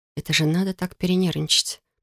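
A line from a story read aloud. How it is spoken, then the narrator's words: Whisper. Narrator (Russian): прошептала я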